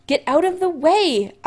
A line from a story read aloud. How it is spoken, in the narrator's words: Allison yells